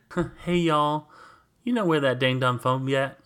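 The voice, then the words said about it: Sweet Southern accent. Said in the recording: “she says it in a very sweet southern, like, ... Like accent,”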